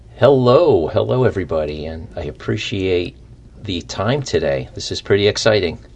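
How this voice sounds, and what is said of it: Radio announcer style voice. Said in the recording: “got a radio voice.”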